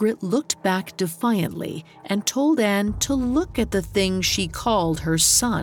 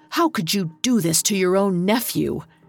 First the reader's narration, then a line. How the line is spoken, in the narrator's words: glared at her sister and spat out